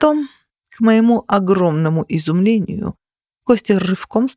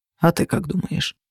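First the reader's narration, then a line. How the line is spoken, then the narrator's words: Muttered. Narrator (Russian): пробормотал он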